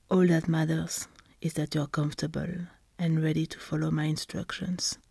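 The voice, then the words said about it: Sexy, seductive voice. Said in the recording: “my delicious sexy voice”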